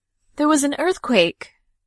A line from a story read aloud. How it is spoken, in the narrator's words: cried her son so excited he was all but dancing in place